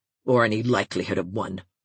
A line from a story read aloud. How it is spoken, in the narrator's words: she added still more sullenly